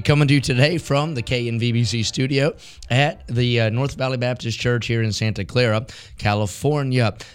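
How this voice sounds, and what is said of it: Hoarse, raspy voice. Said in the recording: “Hoarse and Raspy”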